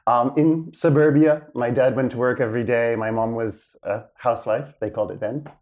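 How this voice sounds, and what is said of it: American accent. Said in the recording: “I grew up in the States. You could probably tell from the accent still hangs around, even though I've lived out of the States now more than in.”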